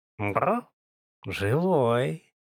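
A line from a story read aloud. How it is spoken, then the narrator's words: Soft breathy exclamation. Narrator (Russian): Мягко выдохнул инцарец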